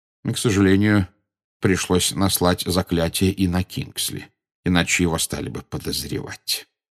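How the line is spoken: Quiet. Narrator (Russian): негромко сказал Дамблдор

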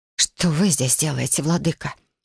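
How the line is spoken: Hoarse, strained control. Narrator (Russian): Совладав с голосом, хрипло спросила девушка

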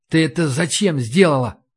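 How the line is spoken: Whisper. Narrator (Russian): прошептал я

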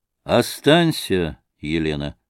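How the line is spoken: Calm. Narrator (Russian): сказал спокойно Морозов

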